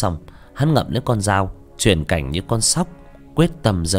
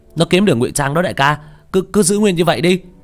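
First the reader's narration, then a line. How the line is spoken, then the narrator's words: Shouting. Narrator (Vietnamese): hét lên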